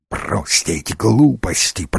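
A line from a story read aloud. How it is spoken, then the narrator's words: Hissed. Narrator (Russian): прошипел Дивайн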